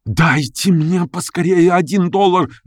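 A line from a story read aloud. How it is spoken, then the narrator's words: Pleading. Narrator (Russian): взмолился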